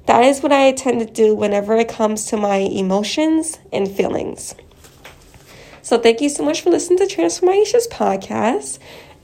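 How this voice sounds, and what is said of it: Sick, muffled-sounding voice. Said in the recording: “my voice sounds a little off. I am sick and I'm wearing two masks right now.”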